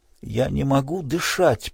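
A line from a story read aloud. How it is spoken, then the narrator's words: Gasping whisper. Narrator (Russian): прошептал Тимон, ловя ртом воздух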